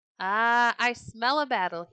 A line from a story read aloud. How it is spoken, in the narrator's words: he cried